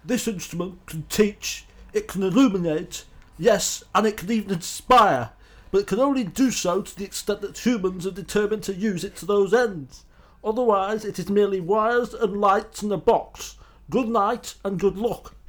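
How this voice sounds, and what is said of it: Imitates another person's voice. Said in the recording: “I can try and do it in a Murrow impersonation ... Sorry, that was my Roy Hattersley.”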